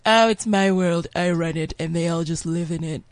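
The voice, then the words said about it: Imitates another person's voice. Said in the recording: “your accent is pretty spot on these days”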